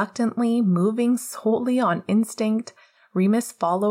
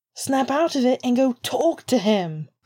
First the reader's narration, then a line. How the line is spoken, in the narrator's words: Pete shouted